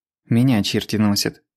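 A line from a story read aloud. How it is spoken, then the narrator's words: Irritated. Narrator (Russian): раздраженно сказал Назаров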